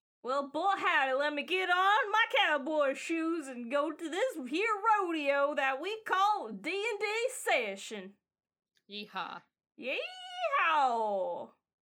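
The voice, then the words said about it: Put-on Southern accent. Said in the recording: “I'm gonna have all of you be talking in a southern accent.”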